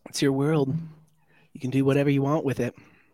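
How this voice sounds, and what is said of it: Imitates another person's voice. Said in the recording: “my Bob Ross impression.”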